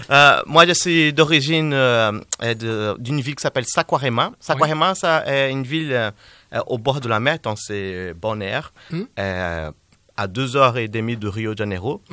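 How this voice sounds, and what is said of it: Slight Brazilian accent in French. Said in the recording (French): “a un petit accent? ... Petit. ... Cet accent vient du Brésil.”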